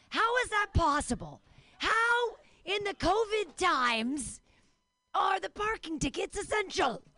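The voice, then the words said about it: Imitates another person's voice. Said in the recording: “That was me being Cosby. ... That was my Cosby impression.”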